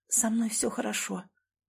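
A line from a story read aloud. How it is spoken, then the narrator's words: Steady whisper. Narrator (Russian): прошептала, и голос не дрогнул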